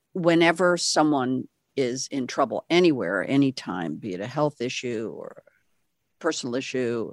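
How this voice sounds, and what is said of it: Quiet, intimate late-night DJ voice. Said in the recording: “my voice gets very late night DJ. I lean in and I get a little quiet.”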